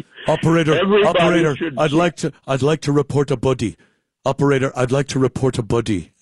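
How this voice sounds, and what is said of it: Imitates another person's voice. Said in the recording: “That's my Donald Sutherland impression.”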